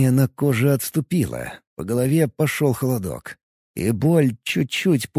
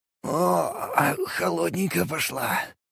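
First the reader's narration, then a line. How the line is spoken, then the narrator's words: Exhaled. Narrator (Russian): выдохнул я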